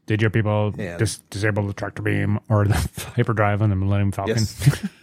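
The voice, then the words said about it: Imitates Darth Vader's voice. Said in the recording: “great Vader impersonation ... it is terrible”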